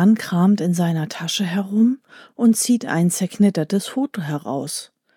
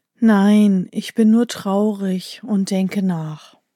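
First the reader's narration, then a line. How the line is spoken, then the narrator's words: Sighing man. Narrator (German): der Mann, der seufzt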